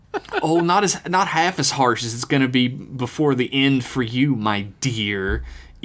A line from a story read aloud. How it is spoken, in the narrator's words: Eve said through gritted teeth between grinning black lips